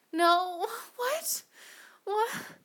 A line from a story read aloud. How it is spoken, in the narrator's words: gasped, lost for words